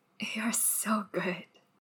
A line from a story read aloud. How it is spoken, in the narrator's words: Wei Ying whispers